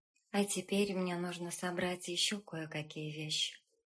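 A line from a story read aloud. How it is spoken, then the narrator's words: Quiet. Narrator (Russian): сказала она тихо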